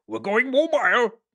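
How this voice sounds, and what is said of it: Poor impression of a film villain's voice. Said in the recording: “my terrible Bane impression.”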